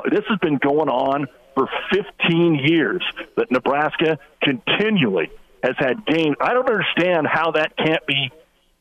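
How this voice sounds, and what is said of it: Frustrated, exasperated tone. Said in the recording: “hear the frustration in my voice.”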